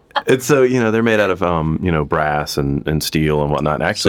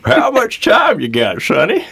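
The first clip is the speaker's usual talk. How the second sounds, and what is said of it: Southern old man voice. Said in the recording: “in an old man voice ... A southern old man voice.”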